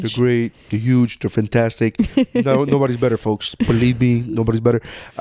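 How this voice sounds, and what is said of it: Donald Trump impression. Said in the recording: “terrible Trump impression ... I don't think it's a terrible Trump. I think it's a terrible voice. But the speech pattern”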